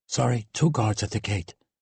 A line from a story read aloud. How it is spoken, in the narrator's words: he whispered